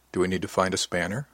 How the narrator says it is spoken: asked quietly

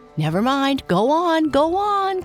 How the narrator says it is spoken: cried the elephant

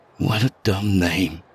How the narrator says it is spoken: I muttered, unaware I'd spoken aloud

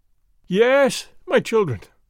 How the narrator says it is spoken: I cried

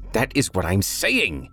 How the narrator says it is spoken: Toby shrieked

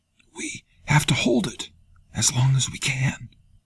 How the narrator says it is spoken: Tonin gasped

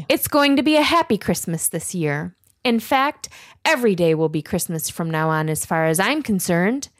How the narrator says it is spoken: Clayton explained happily

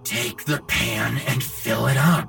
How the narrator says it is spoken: his father hissed

